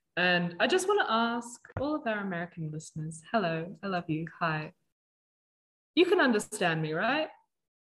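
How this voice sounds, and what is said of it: Australian accent. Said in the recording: “You can understand an Australian accent. ... Let us use our accent.”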